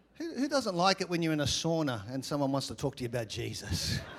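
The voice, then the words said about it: Australian accent. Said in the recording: “my accent always causes conversation ... I'm from Australia”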